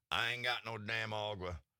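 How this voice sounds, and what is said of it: Put-on Texan accent. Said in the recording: “he's Texan. That was a Texas accent. ... It was really good.”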